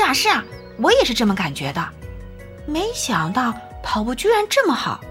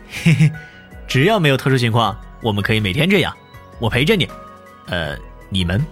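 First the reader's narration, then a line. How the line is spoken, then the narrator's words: Laughing. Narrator (Chinese): 冯耀是哈哈一笑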